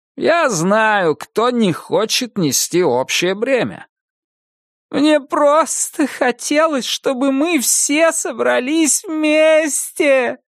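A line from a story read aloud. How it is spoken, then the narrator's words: Moaning. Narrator (Russian): простонала Инит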